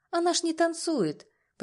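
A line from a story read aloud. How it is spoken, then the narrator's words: Uncertain. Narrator (Russian): почему-то неуверенно произносит Юля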